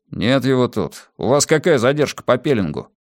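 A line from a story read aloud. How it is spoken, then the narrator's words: Grumbling from behind. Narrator (Russian): В спину бурчали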